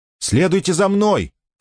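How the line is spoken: Shout. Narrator (Russian): крикнула Кармен

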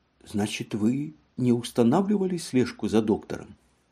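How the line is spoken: Stunned whisper. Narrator (Russian): ошеломленно прошептала

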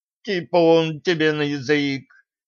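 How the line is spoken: Lord's howl. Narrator (Russian): взвыл владыка

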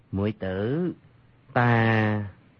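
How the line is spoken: Gentle, smiling. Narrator (Vietnamese): Dương Khang dịu dàng cười nói

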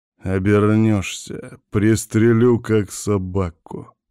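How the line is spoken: Hostile, through gritted teeth. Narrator (Russian): неприязненно процедил

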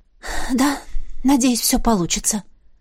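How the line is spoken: Breathed out. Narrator (Russian): выдохнула я

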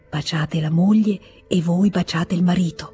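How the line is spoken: Soft, smiling. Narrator (Italian): Sorrise con la sua bocca buona e disse piano

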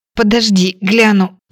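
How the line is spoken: Hoarse wheeze. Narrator (Russian): просипела

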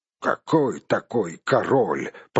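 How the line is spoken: Grumbled. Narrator (Russian): пробурчал другой

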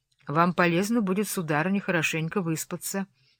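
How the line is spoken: Plain. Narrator (Russian): ответила я

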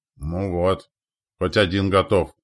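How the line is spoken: Duke grumbling. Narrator (Russian): проворчал герцог

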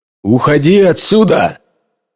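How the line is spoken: Shouting. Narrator (Russian): крикнул Джон жене

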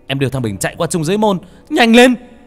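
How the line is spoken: Shouted. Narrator (Vietnamese): Khải hét lên

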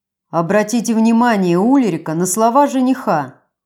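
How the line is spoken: Joyful deep bass. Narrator (Russian): радостно пробасил Брун

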